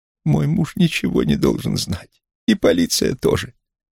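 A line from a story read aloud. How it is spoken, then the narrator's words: Pleading voice. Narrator (Russian): Долли Брук произнесла умоляющим голосом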